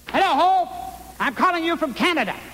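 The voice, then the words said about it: Talking very loudly. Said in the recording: “Why are you talking so loud?”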